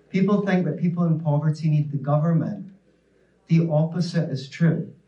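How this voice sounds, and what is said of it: Non-American accent. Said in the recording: “that's the one word that Americans can never understand when I say it in my accent”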